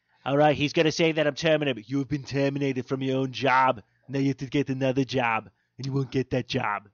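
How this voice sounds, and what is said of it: Imitates another person's voice. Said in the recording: “I could do a Trump ... the newest impersonation that I do”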